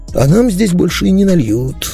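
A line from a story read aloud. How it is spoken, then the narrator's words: Sad soothing. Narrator (Russian): грустно успокоил меня Гонда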